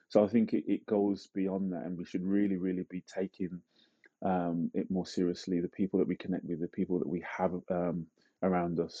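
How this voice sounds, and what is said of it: British accent. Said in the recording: “It even sounds more dramatic when it's said with a British accent.”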